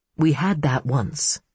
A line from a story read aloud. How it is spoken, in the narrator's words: she said wistfully